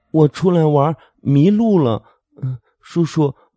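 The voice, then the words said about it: Tender childlike voice. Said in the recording (Chinese): “稚嫩的声音说道”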